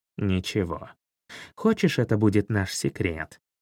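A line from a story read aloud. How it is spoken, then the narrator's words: Conspiratorial cat's question. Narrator (Russian): Заговорщицким тоном спросил черный кот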